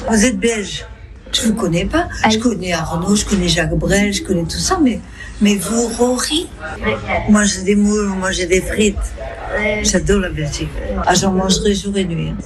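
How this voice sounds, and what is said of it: Good imitation Belgian accent. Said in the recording (French): “Il fait très bien l'accent belge”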